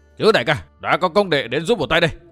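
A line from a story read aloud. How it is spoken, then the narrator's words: Resounding battle cry. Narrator (Vietnamese): thét vang lừng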